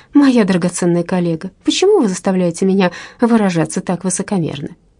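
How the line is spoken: Touchingly comic question. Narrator (Russian): трогательно-комичным тоном спросила

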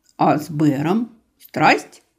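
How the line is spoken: Joyless snort. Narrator (Russian): не очень весело хмыкнула рыжая

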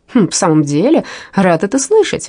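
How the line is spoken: Warm glad exclamation. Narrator (Russian): воскликнул Рэнсом, чувствуя, что, возможно, теперь в деревне у него есть друг

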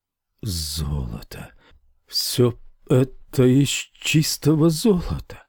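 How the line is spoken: Stammering wizard. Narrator (Russian): запинаясь, сказал волшебник

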